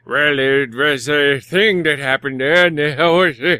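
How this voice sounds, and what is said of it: Imitates another person's voice. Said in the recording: “is that my Doc impression?”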